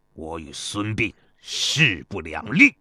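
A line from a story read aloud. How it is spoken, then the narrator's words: Furious, through gritted teeth. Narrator (Chinese): 邹忌气得浑身哆嗦，他咬牙切齿地说道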